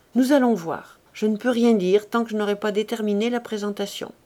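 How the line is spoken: Curt. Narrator (French): elle conclut sèchement

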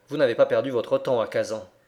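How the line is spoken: Curt, dry. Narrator (French): fit observer l'anglais d'un ton sec

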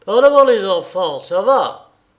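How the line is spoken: Sergeant shouting. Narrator (French): cria le brigadier

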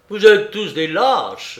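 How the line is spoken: Exclaiming. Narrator (French): s'écria Mato

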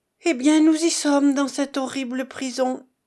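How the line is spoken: Exclaiming. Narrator (French): s'écria Jovita Follet

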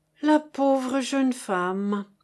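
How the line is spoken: Sigh. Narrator (French): soupira chéri Bibi

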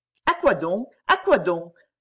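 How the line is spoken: Quick, blushing young woman. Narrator (French): dit vivement la jeune personne en rougissant beaucoup

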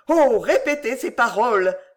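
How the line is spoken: Exclaimed. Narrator (French): s'écria-t-il

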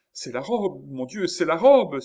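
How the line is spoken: Exclaimed. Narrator (French): s'écria Chon

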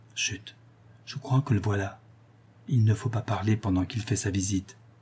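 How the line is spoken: Whispered reply. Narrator (French): répondit tout bas la Lorraine

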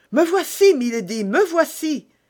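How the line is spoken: Exclaiming. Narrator (French): s'écria Ketty

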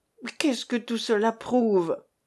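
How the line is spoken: Sullen menacing rumble. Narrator (French): gronda Jean, la tête basse, le front mauvais

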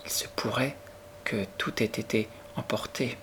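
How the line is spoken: Murmur, forcing courage. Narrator (French): murmura-t-elle, essayant de se donner du courage

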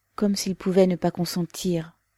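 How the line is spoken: Mother sighing. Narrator (French): dit la mère en soupirant

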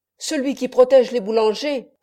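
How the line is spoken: Loud ringing shout. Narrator (French): criait d'une voix sonore

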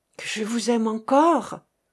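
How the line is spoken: Stammering in ear. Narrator (French): balbutiait à son oreille

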